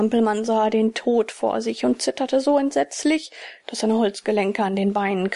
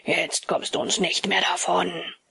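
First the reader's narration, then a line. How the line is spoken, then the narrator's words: Wild growling voices. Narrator (German): die 2 wilden Stimmen knurrten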